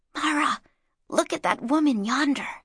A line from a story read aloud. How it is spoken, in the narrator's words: she whispered